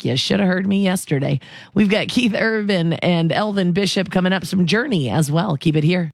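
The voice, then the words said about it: Hoarse, partly lost voice. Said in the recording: “I lost my voice a bit, but it is coming back”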